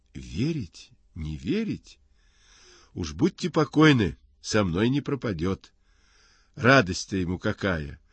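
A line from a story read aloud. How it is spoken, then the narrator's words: Joyful reply. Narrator (Russian): радостно отвечает Горкин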